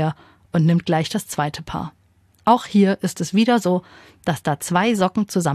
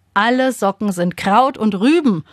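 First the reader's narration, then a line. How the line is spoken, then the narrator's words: Father calling out. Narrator (German): ruft Papa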